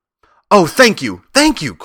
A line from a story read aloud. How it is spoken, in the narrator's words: cried the Scarecrow